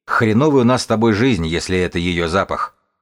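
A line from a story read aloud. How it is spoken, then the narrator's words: Wry chuckle. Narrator (Russian): бегун хмыкнул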